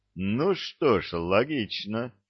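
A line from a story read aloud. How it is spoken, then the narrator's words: Deep bass voice. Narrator (Russian): пробасил генерал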